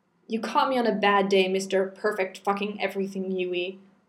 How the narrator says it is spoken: snarled

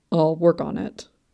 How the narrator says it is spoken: he grumbled

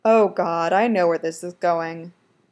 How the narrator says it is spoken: groans

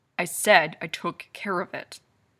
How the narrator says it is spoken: Kane growls

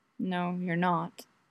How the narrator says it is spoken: finally under his breath

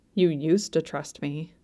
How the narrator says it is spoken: he muttered, angry and bitter

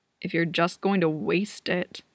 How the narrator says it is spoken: Andrew grumbles

